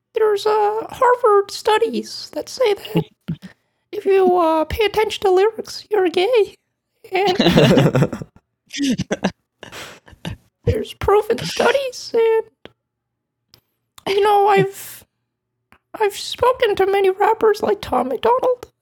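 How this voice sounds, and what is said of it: Jordan Peterson impression. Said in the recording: “good impression. ... I've been listening to so much Jordan Peterson.”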